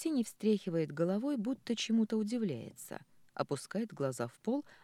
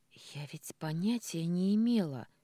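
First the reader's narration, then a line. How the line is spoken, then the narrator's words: Hoarse. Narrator (Russian): сиплю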